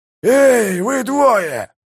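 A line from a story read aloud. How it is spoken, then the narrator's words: Growled. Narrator (Russian): зарычал Калор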